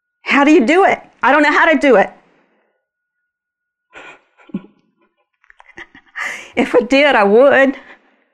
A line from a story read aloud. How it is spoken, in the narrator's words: She's yelling